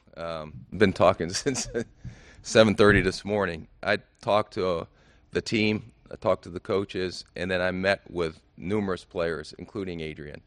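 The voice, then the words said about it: Slightly raspy voice. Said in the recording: “my voice is a little rasp right now”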